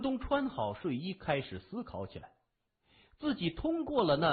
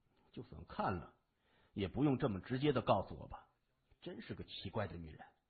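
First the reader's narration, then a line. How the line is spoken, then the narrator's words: Muttering. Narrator (Chinese): 谢文东嘟囔着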